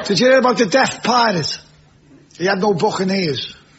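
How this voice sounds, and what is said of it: Thick Scouse accent. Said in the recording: “as a Scouser. With an accent so thick, we're broadcasting tonight's show with subtitles.”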